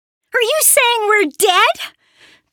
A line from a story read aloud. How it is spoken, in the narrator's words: Perry asked, almost shouting into Yorval's face